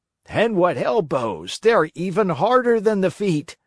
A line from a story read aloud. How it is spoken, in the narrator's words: shouted another one, who, because of some other trick, had received a blow in the stomach